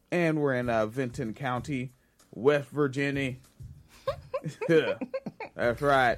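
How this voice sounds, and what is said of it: Bob Kincaid impression. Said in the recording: “Is that your Bob Kincaid impression? ... that is Bob Kincaid shit, yes.”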